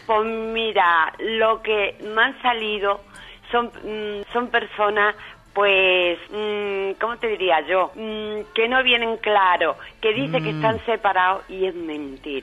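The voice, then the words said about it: Sweet-voiced Sevillian Spanish accent. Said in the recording (Spanish): “ese acento sevillano ... esa dulzura tuya ... con esa voz”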